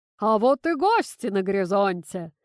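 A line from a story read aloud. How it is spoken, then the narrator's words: Booming. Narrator (Russian): прогремел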